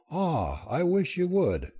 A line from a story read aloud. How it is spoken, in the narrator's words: she said, with a smile and a deep sigh